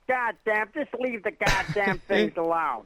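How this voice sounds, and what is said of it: Impression of DeHinden. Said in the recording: “my DeHinden impersonation ... your DeHinden thing”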